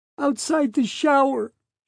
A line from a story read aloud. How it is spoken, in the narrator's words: repeated, breaking into sobs